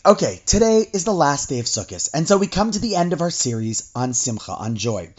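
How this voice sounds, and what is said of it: Slightly hoarse voice. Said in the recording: “my throat is a little hoarse,”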